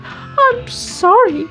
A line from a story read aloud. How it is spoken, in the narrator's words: cried Baby Ted